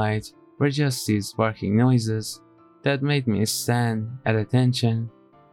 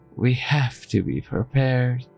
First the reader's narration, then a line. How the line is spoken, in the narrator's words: sighed